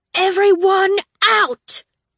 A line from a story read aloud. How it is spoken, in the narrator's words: Tella shouted